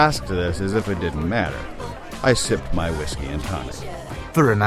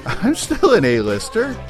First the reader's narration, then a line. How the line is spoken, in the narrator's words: I laughed, as if it was ridiculous to have to defend myself